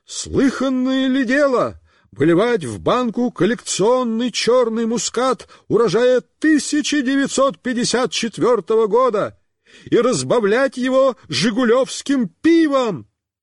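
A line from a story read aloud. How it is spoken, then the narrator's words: Shouting. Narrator (Russian): Он кричал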